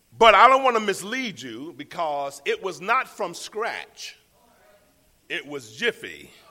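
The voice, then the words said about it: Slight Southern drawl. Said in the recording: “my traditional southern drawl, because y'all can still hear some of that in me”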